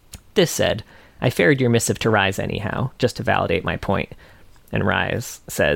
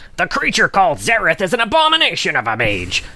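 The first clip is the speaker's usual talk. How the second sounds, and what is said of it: Imitated Ryze character voice. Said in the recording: “let's see if I can do this in a Ryze voice. ... It's not piratey”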